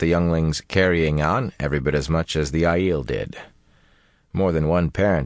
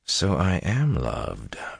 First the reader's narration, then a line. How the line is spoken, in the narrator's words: Rand said softly